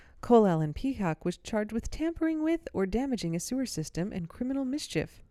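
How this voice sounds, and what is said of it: Radio announcer voice. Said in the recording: “I'm going to read this next part in, like, radio voice.”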